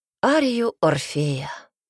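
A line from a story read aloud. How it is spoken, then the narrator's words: Answer with a sharp sigh. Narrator (Russian): ответил секретарь и порывисто вздохнул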